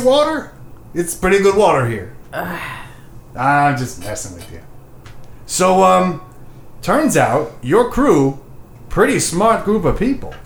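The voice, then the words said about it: New Jersey character accent. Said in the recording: “What is your accent? ... He's from Joyzy.”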